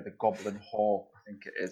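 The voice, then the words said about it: Put-on Scottish accent. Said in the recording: “now I have to use my best Scottish accent here”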